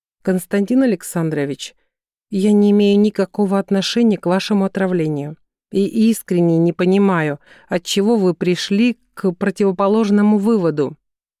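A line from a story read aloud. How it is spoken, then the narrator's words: Quiet, dignified. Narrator (Russian): сказала она тихо, но с достоинством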